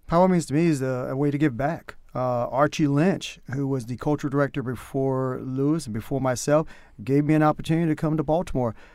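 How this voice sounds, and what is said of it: North Carolina country accent. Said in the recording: “My country accent comes out the more I talk, so you can tell that I'm from North Carolina.”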